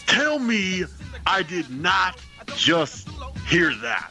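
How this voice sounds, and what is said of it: Imitates another person's voice. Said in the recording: “since I'm imitating D-Von tonight, I might as well run the gamut of black wrestlers and go with Booker T.”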